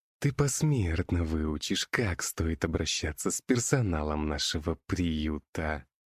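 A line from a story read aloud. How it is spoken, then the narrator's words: Hissing ghoul, close up. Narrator (Russian): прошипел упырь мне в лицо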